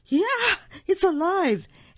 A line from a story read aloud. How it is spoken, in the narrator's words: The man screamed